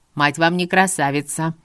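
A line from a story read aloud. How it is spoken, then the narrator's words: Stern proud flare, several aunts. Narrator (Russian): Строго и гордо вспыхнули сразу несколько теток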